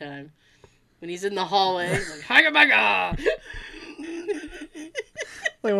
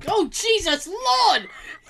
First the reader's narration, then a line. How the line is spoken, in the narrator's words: You yelled that